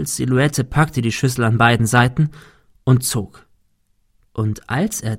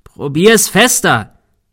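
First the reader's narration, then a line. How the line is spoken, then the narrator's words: Shouted. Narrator (German): schrie Thomas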